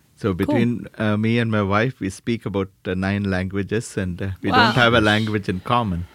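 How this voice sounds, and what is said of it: South Indian accent. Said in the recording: “people pick up an accent ... I was born in India, South India”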